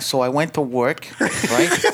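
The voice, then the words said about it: Put-on New York accent. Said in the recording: “No, that's a New Yorker.”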